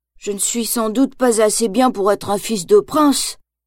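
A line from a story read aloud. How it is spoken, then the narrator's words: Sighing. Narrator (French): soupire Bambi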